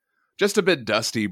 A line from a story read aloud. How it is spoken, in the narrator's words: Broom says